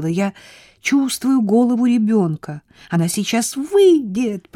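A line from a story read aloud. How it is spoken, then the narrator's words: Shrill scream. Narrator (Russian): Пронзительно закричала она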